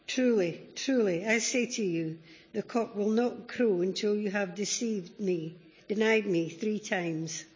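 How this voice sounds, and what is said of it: Reads with a distinct accent. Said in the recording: “I love that accent. She's never lost this.”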